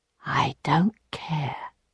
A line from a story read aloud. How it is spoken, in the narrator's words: whispered in her ear, so close